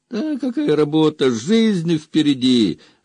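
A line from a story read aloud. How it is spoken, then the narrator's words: Laughing. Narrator (Russian): рассмеялся Здор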